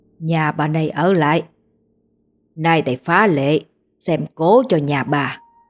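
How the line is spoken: Deep booming voice. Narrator (Vietnamese): bà ta ồm ồm nói

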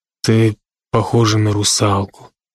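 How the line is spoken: Sad. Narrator (Russian): отчего-то печально заметил Брок

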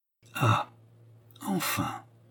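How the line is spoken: Murmur. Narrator (French): murmura-t-il

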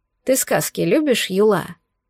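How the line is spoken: Quiet question. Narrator (Russian): Спрашиваю тихо

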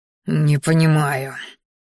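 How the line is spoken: Hissing through teeth. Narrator (Russian): шипя сквозь зубы, произнес боевик

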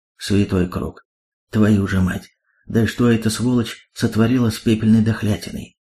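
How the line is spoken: Awed, breathless exhale. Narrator (Russian): Завороженно выдохнул Далс

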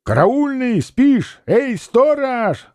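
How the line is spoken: Crowd shouting. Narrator (Russian): закричали люди

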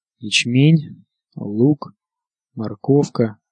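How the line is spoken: Muttering. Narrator (Russian): пробормотал он

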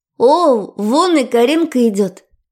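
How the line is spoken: Joyful exclamation. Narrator (Russian): радостно воскликнула Аня

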